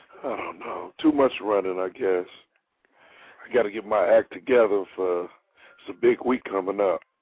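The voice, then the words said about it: Rough, damaged-sounding voice. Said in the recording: “My voice is terrible. ... What happened to your voice?”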